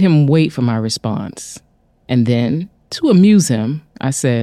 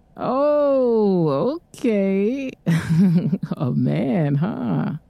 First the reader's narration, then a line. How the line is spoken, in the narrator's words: he said teasingly